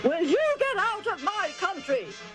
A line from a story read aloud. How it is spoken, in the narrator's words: He roared